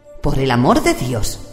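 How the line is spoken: Exclaimed. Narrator (Spanish): exclamó Mercin

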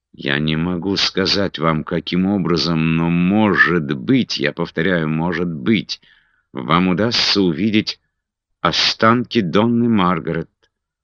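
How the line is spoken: Close whisper in ear. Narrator (Russian): Инесса наклонилась к нему так, что ее губы почти коснулись его уха, и прошептала

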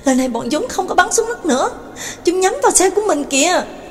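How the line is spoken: Frightened cry. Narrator (Vietnamese): Đường Mẫn kinh hãi kêu lên

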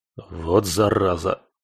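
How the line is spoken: Irritated snort. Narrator (Russian): Раздраженно фыркнул

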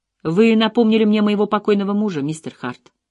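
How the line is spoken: Plain. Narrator (Russian): сказала она неожиданно

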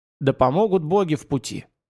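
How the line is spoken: Smirking snort. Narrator (Russian): Нойка ухмыльнулся и хмыкнул

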